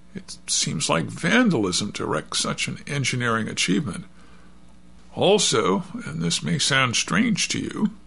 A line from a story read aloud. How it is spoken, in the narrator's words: he went on in a doubtful tone